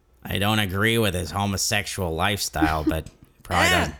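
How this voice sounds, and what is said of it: Imitates another person's voice. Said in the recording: “That's like Jon Stewart's impression of Dick Cheney ... That's what my Rudy impression is doing”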